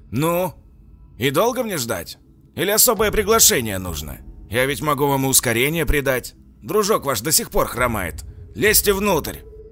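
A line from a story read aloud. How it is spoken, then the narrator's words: Man's echoing shout. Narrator (Russian): буквально прокричал мужчина, вызвав эхо в полупустом подвале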